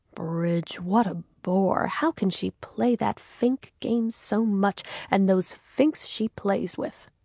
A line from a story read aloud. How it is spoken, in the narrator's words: He muttered away to himself